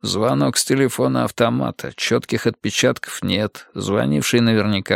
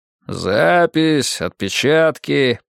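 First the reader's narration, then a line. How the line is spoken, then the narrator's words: Grumbling. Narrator (Russian): проворчал Артур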